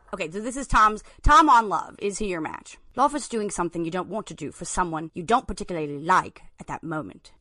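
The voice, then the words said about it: Put-on British accent. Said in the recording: “Why don't you try reading this in a British accent?”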